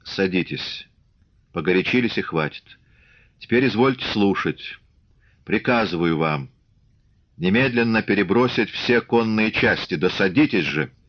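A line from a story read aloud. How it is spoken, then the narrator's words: Calm. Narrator (Russian): И уже совсем спокойно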